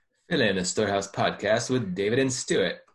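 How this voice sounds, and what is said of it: Put-on mixed Australian British Canadian accent. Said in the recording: “It's a mix of like Australian and British and ... Canadian. A bit. ... I was getting all kinds of that accent.”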